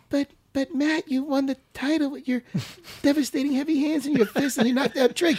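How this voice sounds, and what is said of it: Horrible, unmanly imitation voice. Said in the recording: “That wasn't your voice at all. ... I do a horrible voice ... For you. ... you don't sound manly like that.”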